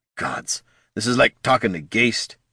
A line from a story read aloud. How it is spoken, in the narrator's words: muttered